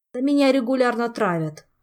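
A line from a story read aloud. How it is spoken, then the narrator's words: Sighing. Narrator (Russian): вздохнул Орландо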